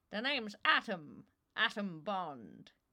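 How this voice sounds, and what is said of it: Mock spy-movie voice. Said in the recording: “in the voice of a New York gangster? ... No, that was James Bond.”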